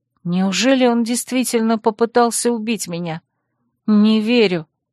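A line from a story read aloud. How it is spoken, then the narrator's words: Muttering. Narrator (Russian): пробормотала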